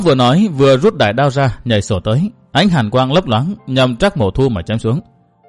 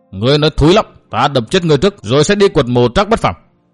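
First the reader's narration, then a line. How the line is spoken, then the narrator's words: Angry shout. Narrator (Vietnamese): Tây Môn Phiêu quát lên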